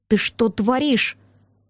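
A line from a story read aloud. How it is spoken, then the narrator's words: Furious hiss. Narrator (Russian): прошипел яростно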